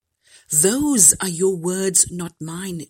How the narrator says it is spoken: Jesus replied

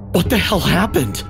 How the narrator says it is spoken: I gasped, my heart pounding

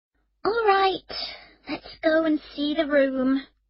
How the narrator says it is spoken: Emma said wearily

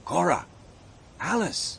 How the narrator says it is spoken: he said quietly

